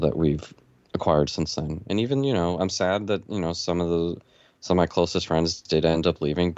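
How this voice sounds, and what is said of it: Sick, sore-throated voice. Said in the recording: “I'm sick ... you sound terrible ... That's a sore throat”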